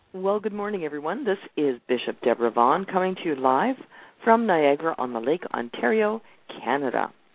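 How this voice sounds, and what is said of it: Weak, congested voice. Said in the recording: “My voice is almost here... my allergies bad this season... it doesn't sound like I have a stopped-up nose”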